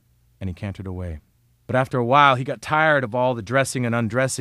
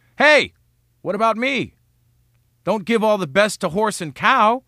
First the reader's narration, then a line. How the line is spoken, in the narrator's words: a voice from the crowd shrieked